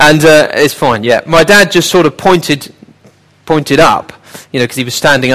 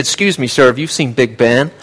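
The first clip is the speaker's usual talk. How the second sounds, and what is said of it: Put-on American accent. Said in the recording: “sorry, Americans, for that accent.”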